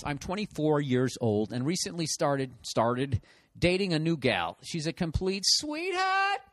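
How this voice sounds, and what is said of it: Boston accent. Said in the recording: “I always do this Boston accent... My accent”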